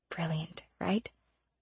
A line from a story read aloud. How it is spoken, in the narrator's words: Poe muttered